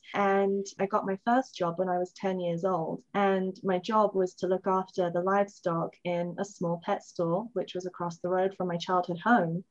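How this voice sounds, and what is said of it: London-born English accent. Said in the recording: “I was born in London, as you can tell from the accent.”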